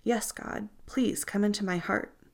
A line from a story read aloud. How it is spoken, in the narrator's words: Stan whispered